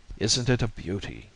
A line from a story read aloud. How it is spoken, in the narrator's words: murmured Stanley